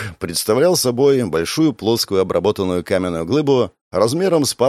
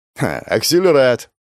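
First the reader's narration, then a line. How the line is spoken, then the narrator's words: Snort. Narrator (Russian): хмыкнул Денис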